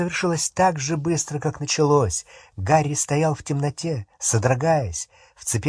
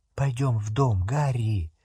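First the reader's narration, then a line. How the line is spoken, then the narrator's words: Whisper. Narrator (Russian): прошептала Гермиона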